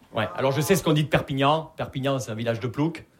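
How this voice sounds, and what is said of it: Southern French accent from Perpignan. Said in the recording (French): “vous l'entendez à mon accent, je viens pas de Paris, je viens de Perpignan”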